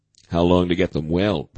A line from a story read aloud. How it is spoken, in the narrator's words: Burroughs asked